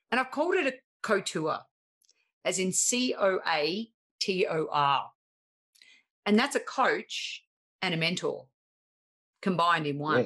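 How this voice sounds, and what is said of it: Harsh Australian accent. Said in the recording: “my harsh Australian accent”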